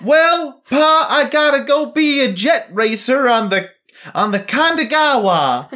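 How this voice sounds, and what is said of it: Put-on accent. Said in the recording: “That's what she sounds like. ... She just. Gets an accent.”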